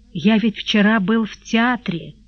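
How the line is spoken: Heavy sigh. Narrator (Russian): сказал он, тяжело вздохнув

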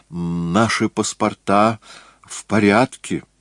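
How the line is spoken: Dejected mutter. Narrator (Russian): Упавшим голосом он пробормотал

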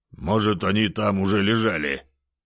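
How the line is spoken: Stubborn grumbling. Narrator (Russian): заворчал тот, не собираясь признавать, что не прав

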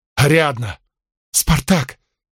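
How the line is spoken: Sobbing girl. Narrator (Russian): Девушка с рыданиями

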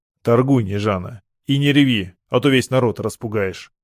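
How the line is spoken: Stern command. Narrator (Russian): строго велел я

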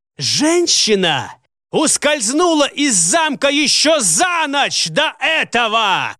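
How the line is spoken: Furious yelling. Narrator (Russian): обрушил на него всю свою несдержанную ярость Коска, завопив на весь кабинет

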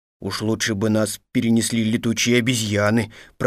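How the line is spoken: Grumbling. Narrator (Russian): пробурчал он

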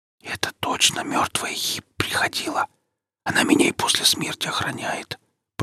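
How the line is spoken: Whisper. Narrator (Russian): прошептал философ

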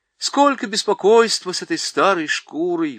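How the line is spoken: Bumbler's exclamation. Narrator (Russian): воскликнул недотепа

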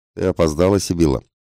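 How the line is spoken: Stern aunt. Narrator (Russian): строго сказала ее тетка

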